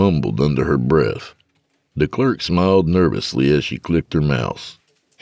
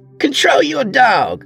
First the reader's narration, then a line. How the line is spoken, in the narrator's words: she shouted